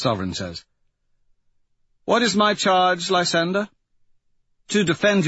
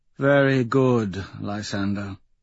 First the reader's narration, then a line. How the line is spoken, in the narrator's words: she says sadly